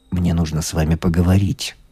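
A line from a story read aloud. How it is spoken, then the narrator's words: Quiet. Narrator (Russian): сказал он тихо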